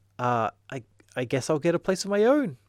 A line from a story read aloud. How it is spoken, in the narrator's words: Martin sputtered